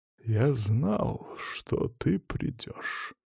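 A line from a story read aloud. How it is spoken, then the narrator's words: Quiet insinuating menace. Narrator (Russian): тихим вкрадчивым голосом, словно босс мафии, произнес Василий Павлович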